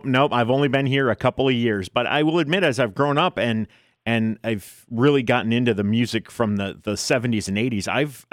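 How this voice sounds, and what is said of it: Midwestern American accent. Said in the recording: “You sound like Midwestern. ... You don't have a Jersey accent.”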